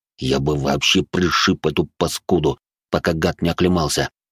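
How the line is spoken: Hissed through teeth. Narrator (Russian): процедил сквозь зубы дежуреньи

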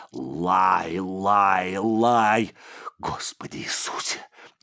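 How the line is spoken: Barely audible wheeze. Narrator (Russian): Едва слышно прохрипел он

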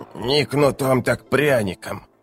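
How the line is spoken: Old woman muttering. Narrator (Russian): бормотала старуха

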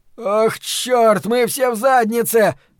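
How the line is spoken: Shouted. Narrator (Russian): крикнул Ллойд Хенрид

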